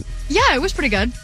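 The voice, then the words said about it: Polite customer service voice. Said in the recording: “you like put on your like customer service voice.”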